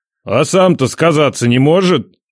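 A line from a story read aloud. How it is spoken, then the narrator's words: Grumbling. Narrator (Russian): Проворчал Ядрей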